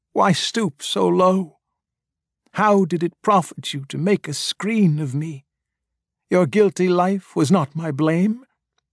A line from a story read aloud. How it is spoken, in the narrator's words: vainly whined